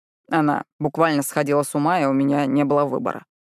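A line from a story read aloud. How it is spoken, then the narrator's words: Dry explanation. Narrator (Russian): сухо поясняет он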